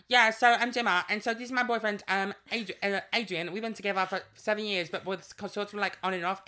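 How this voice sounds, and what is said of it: Fast nasal put-on London accent. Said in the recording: “she's like British trash ... it's that quick talking back the throat nasal London accent ... the trashy housewife”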